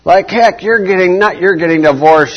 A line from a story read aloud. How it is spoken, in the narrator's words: she shouts